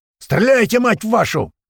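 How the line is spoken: Yelling. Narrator (Russian): заорал Апрель

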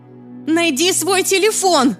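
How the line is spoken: Very loud yell into phone. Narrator (Russian): Я заорала в трубку так громко, что она и сама должна была услышать

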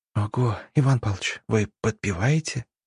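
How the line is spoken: Admiring whisper. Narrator (Russian): Восхищенно прошептала Женечка

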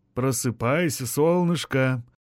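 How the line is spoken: Cooing, tender. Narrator (Russian): проворковал он

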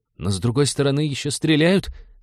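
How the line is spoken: Timid pirate reminder. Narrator (Russian): робко напомнил один из пиратов

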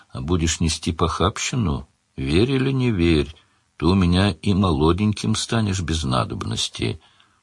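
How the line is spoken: Old woman, kindly. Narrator (Russian): Старуха ласково сказала вслед

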